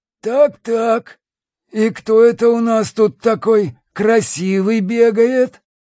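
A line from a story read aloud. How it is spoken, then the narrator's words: Wheezy smoker's voice. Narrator (Russian): просипел прокуренным голосом мужик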